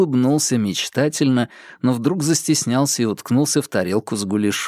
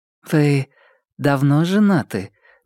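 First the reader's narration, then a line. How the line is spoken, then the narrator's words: Gentle question. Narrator (Russian): мягко спросила Маша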